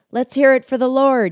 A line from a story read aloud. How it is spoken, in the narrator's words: shouted